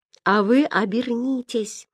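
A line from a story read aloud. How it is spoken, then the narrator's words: Sudden whisper. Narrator (Russian): вдруг шепнул Ян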